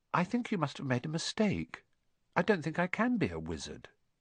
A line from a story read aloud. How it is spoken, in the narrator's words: he said quietly